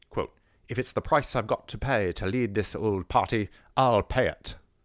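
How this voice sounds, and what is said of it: Poorly done put-on accent. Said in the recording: “let me do an accent, hold on ... Oh my God, I'm so bad at accents.”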